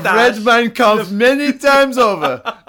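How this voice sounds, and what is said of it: Put-on accent drifting into Russian. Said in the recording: “That's almost like a Russian accent. I'm sort of transgressing into Russian. That was not good.”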